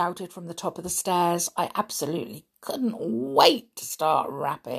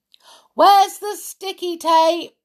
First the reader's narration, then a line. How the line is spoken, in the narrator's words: I shouted